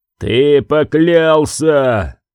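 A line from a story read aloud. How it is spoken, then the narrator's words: Roaring. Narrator (Russian): взревел Лемон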